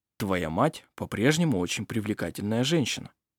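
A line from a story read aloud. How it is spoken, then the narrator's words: Gentle remark. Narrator (Russian): мягко заметил он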